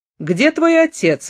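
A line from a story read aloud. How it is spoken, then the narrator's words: Exclamation. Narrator (Russian): воскликнул Теодореску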